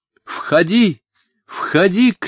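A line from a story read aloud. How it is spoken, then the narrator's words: Shout after coming to. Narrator (Russian): крикнула Софичка, опомнившись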